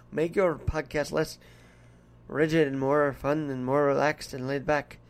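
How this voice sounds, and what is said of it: Put-on Irish brogue. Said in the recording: “Do a little Irish brogue if you can ... As I feel right now talking to you about this in the accent.”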